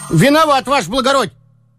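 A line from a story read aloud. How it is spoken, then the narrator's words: Servant shouting. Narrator (Russian): крикнул денщик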